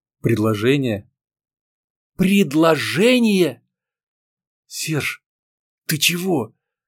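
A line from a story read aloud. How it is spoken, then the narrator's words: Suddenly hoarse question. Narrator (Russian): Внезапно охрипшим голосом спросила девушка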